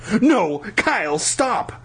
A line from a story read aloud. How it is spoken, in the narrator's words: I screamed